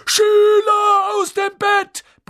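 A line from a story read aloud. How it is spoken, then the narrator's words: Bellowed. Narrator (German): brüllte Peeves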